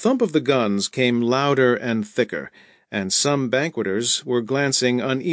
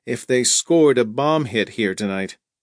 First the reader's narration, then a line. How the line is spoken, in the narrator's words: Sloat said with a little laugh